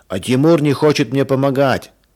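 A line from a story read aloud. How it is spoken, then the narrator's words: Shouted. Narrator (Russian): закричал Женя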